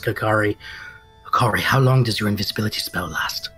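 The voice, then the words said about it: Very low, serious voice. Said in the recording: “in a very low, serious voice”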